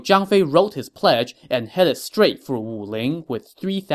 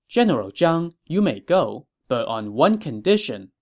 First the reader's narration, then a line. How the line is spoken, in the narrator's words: he said